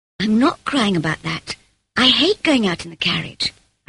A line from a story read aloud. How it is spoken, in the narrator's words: I said quickly